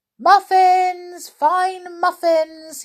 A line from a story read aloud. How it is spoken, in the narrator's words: he shouted